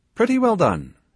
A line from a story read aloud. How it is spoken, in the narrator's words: shouted Toby underneath me